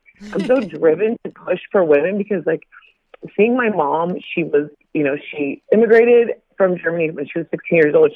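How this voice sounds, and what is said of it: Choked up, emotional, tearful voice. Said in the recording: “I get so emotional talking about my mom. Sorry. ... I just get choked up.”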